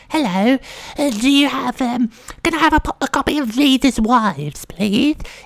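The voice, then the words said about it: Odd put-on comic voice. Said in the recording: “some kind of fucking weird voice weirdo”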